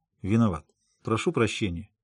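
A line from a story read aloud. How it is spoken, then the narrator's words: Muttering. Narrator (Russian): пробормотал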